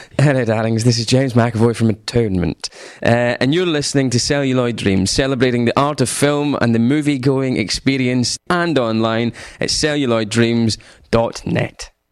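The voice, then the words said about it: English accent. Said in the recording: “In an English accent.”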